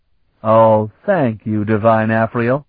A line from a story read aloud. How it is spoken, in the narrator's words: he said